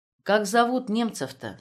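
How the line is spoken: Plain. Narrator (Russian): спросил Звонов

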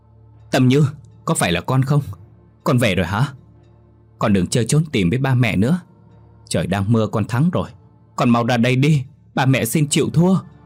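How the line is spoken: Distraught screaming call. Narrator (Vietnamese): Bà Thu hụt hẫng gào thét gọi tên con

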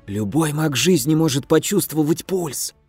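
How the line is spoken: Strained wheeze, blade at throat. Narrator (Russian): Просипел, чувствуя, что лезвие вжимается все глубже

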